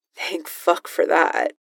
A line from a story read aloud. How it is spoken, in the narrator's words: the voice mutters